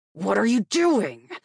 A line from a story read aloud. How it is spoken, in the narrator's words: Asher snarled